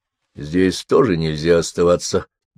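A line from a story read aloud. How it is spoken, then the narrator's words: Grumbled. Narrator (Russian): буркнул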